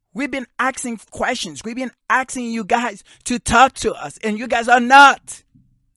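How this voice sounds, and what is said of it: Yelling, raised frustrated voice. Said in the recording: “I'm sorry I'm yelling”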